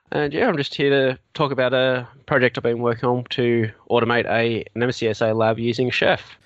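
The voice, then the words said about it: Australian accent. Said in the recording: “as you may have already guessed from my accent, I'm Australian”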